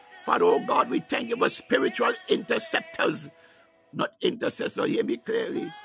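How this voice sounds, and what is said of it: Speaks with a noticeable accent. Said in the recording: “My accent may have you thinking that I'm speaking about intercessor.”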